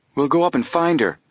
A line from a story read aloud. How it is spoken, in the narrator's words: Joe put in eagerly